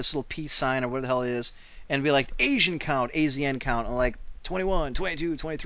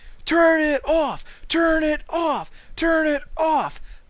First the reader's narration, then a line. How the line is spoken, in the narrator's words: a thousand people screaming